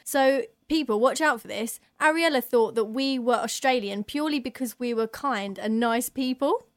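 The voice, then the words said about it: Very British accent. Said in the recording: “From the UK, I'm British. ... I've got a very British accent.”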